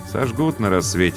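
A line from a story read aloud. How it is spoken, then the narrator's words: Muttered. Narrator (Russian): пробормотал Бено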